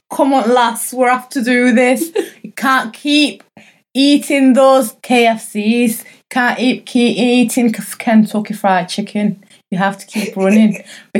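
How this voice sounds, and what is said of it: Exaggerated Northern English accent. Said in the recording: “you can do your Northern accent, make it a bit stronger.”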